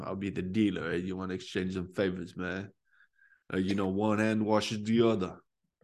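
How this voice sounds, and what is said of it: Put-on mafia gangster accent. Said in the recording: “is that Tony Soprano or are you trying to be Tony Montana? ... some mafia accent”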